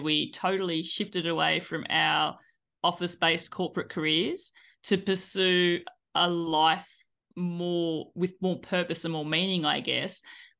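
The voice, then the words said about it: Australian accent. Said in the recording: “as you can tell from my accent, I am from Australia originally”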